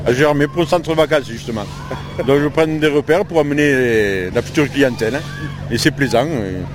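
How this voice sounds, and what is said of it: Slight regional French accent. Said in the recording (French): “Vous avez un petit accent qui me dit que vous n'êtes pas Vosgien.”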